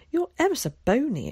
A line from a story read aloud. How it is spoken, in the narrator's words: exclaimed Zack